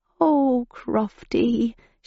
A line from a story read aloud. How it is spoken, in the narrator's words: she murmured